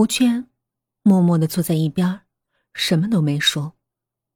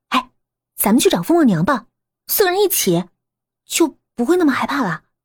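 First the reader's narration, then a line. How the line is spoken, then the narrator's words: Crying out. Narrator (Chinese): 艾琳也叫了起来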